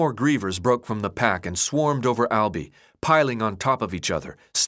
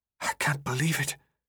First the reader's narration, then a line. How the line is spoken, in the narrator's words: Newt whispered